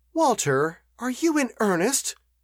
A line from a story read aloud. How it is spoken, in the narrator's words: exclaimed Eleanor